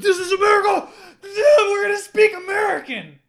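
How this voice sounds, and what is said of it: Screaming, loud mock-angry shout. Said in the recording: “I'm doing a lot of screaming today.”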